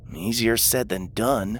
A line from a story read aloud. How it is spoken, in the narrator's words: Lou mumbled